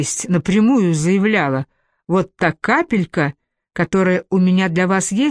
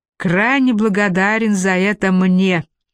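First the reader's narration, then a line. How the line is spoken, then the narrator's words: Laughing. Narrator (Russian): рассмеялся Байт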